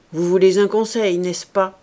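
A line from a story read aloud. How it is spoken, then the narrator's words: Rough voice. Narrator (French): dit-il enfin d'une voix rude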